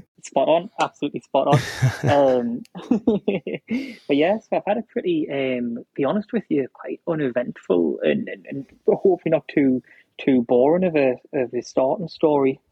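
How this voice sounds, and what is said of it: Strong Newcastle (Geordie) accent. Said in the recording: “originally from South Shields, just outside of Newcastle, hence here the strong accent”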